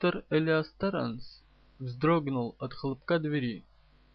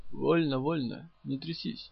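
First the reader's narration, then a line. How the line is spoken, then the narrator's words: Hoarse wheeze. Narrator (Russian): Просипел полковник Фридемар Марсий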